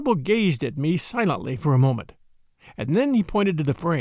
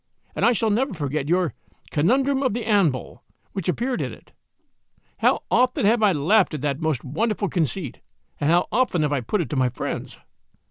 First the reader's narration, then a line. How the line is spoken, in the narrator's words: I exclaimed